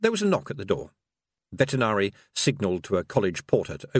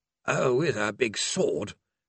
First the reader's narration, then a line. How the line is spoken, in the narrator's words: grumbled Mr